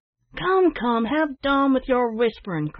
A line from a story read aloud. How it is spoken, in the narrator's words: cried several of the bystanders, who were becoming impatient of delay